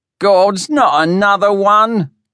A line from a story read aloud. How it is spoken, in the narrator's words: cursed someone from the crowd